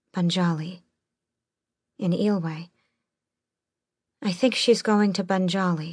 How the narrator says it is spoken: Elide said softly

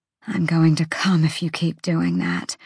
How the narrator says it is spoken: she rasped

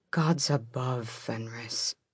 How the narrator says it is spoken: Gavriel murmured

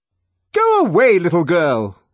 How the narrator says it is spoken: shouted angrily

